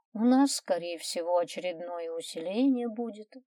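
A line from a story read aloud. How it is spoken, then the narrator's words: Sigh. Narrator (Russian): вздохнула Маринка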